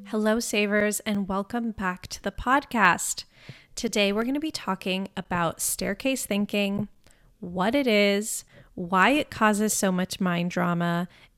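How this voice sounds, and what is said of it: Congested, groggy voice. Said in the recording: “I'm still congested ... My voice is still a little groggily ... my voice sounds funny”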